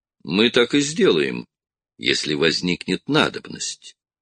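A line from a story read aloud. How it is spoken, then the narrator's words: Calm reply. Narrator (Russian): спокойно ответил Струан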